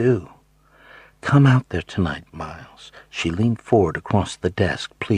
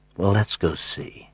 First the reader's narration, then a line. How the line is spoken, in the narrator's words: I said gently